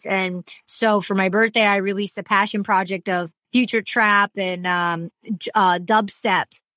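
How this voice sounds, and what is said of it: Slight accent. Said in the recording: “that little accent is beautiful”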